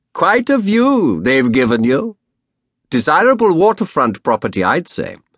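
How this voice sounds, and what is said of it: Rich aristocratic voice, slight Dutch accent. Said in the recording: “in rich, aristocratic tones with just the hint of a clammy Dutch accent”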